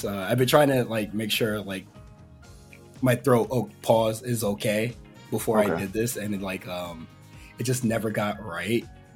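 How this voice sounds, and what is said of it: Worn-out, strained voice. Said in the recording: “sorry for my voice ... cooked your voice”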